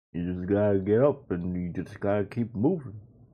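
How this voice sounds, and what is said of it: Bad Sylvester Stallone impression. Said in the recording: “That was a bad Stallone impression.”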